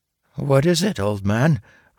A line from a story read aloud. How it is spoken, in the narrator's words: Red Baron asked nervously